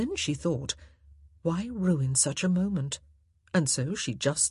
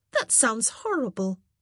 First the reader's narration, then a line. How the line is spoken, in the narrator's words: she exclaimed